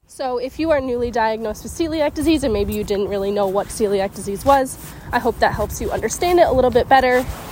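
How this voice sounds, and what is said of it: Slightly out of breath. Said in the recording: “out of breath at times. I currently have COVID, so I'm not struggling to breathe, but I'm just like a little bit out of breath”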